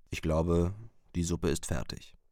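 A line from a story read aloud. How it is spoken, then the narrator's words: Plain. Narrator (German): sagt er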